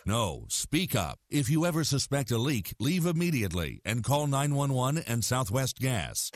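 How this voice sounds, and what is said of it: Deep narrator voice. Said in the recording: “deep voice narrator”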